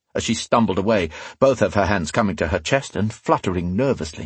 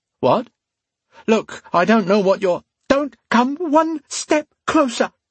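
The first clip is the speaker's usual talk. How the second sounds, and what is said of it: Terrified screeching female voice. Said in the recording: “she screeched in a terrified voice.”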